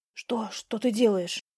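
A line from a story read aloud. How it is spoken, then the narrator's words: Astonished whisper. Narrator (Russian): изумленно прошептал Адам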